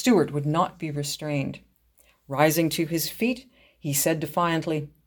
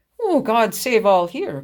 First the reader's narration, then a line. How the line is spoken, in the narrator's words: cried a cheery voice